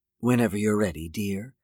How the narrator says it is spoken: whispered

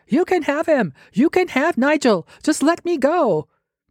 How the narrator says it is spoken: Rather shamefully, screaming over my shoulder

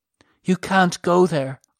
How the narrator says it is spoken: Armin whimpered

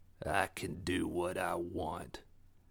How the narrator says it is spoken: croaked

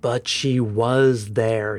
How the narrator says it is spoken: he groaned to himself

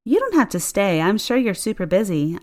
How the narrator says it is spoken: said as brightly as I could muster

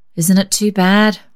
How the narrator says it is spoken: sighed Grandma

